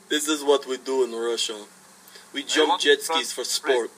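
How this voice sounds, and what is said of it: Bad, mixed-up put-on Russian accent. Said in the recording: “I'm mixing all of my accents up. Every one of my accents is mixing up ... It's so bad.”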